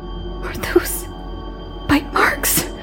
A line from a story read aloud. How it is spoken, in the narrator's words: I gasped